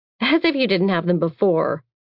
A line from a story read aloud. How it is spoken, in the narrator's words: I scoff